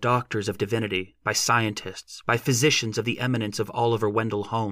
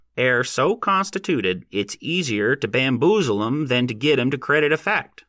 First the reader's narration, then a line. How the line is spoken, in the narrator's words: he said in his nasal voice